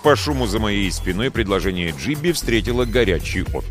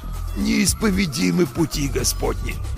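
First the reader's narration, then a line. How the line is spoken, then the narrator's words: Hoarse, pained wheeze. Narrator (Russian): просипел, морщась от боли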